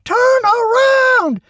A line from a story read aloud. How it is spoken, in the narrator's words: Randy screamed into his walkie-talkie